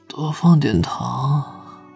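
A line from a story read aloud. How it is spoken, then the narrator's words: Hoarse feverish request. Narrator (Chinese): 钟婉已经彻底被烧迷糊了，十分不见外的哑声吩咐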